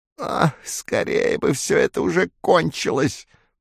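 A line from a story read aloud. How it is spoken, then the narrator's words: Creaky voice. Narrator (Russian): проскрипел Мэс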